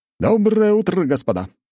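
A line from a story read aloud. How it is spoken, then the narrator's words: Exclaimed. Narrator (Russian): воскликнул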